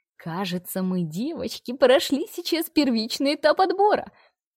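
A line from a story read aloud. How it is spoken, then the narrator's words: Happy squeal. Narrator (Russian): счастливо взвизгнула всезнающая Марина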